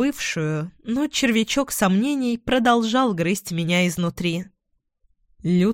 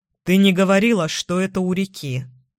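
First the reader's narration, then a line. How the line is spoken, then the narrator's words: Gloomy reply. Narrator (Russian): мрачно ответил Эдвин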